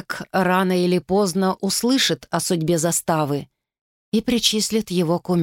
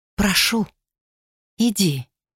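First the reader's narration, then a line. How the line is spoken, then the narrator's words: Quiet. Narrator (Russian): тихо сказала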